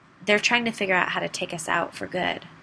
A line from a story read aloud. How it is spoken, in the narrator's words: she said